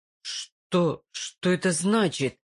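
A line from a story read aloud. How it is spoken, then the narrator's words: Strained forced words. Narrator (Russian): выдавил он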